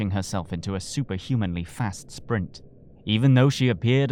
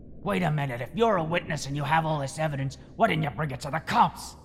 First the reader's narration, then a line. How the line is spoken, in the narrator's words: Carl screamed suddenly